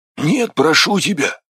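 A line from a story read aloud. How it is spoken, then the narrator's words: Pleading hoarse rasp. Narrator (Russian): умоляюще прохрипел Афрус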